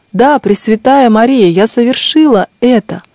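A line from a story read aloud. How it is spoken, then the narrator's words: Loud exclamation, voice regained. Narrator (Russian): Тогда вернулся к ней голос, и она громко воскликнула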